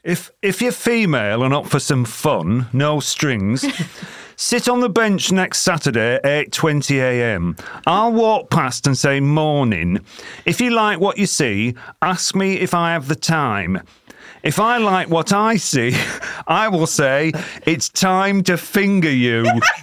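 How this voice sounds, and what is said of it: Put-on Sheffield accent. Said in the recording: “Sheffield accent”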